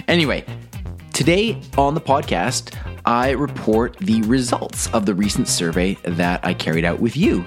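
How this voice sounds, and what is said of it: Voice sounds off, unwell. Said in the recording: “Sorry for my voice. ... my allergies are acting up like crazy”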